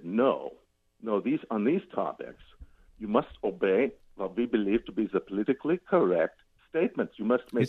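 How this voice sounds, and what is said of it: Put-on German accent. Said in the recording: “Is that a German accent? Are you doing a German accent? ... Yeah, that's right.”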